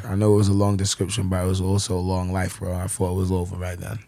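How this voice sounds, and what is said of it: London accent with New York tinge. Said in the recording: “your accent is from London ... you have this weird New York London accent”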